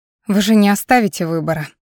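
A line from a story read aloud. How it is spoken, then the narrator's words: Resigned sigh. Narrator (Russian): вздохнула, понимая, что в очередной раз попала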